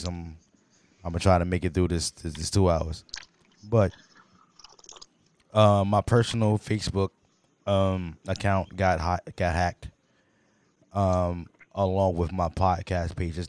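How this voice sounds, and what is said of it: Cracking, unwell-sounding voice. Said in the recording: “excuse my voice. I'm a little bit under the weather. ... My voice start cracking”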